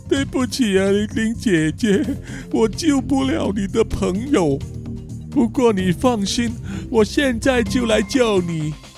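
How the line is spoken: Crying. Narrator (Chinese): 哭着对玲玲说

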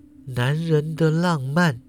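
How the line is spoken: Murmuring. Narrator (Chinese): 怪新娘喃喃说道

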